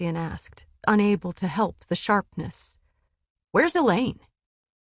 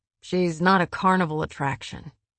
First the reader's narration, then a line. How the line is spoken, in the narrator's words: Cassian said through his teeth